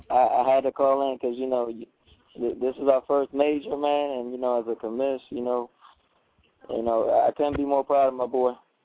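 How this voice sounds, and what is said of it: Hoarse, fading voice. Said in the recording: “I'm losing my voice already”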